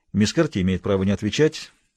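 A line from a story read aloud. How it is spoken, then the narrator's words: Quickly said. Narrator (Russian): быстро сказал адвокат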